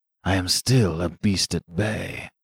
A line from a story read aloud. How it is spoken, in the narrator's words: he said in a low, hoarse voice